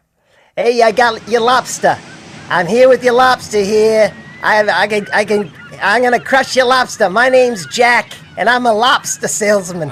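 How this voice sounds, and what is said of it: Put-on coastal Maine accent. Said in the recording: “Do your Maine accent and pretend like you're a lobster salesman on the streets of Maine ... you're really good at dialects ... Go with, like, I don't know, coastal Maine ... That's unbelievable.”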